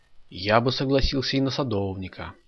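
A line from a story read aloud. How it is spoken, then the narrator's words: Sigh. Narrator (Russian): вздохнул Саша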